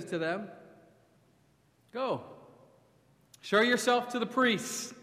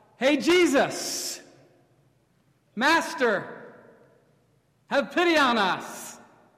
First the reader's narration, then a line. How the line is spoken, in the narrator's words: they shout